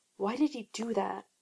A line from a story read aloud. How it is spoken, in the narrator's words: Hugh asks, whisper quiet